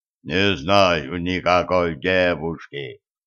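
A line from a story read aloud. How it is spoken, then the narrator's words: Giant's booming voice. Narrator (Russian): прогудел гигант, к которому внезапно вернулась речь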